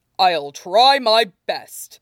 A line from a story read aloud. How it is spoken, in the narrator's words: Toshinori said, with a shy and sorry chuckle